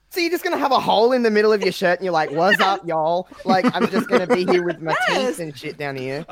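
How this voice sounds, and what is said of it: Put-on Texas accent. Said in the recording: “sneaky Texas accent”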